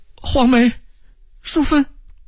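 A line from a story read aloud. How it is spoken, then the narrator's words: Calling out while chasing. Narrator (Chinese): 唐小云一边追一边叫着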